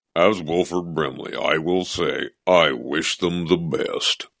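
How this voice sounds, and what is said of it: Imitates another person's voice. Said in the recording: “like you're Wilford Brimley all of a sudden ... pretty good impression. It's not bad actually.”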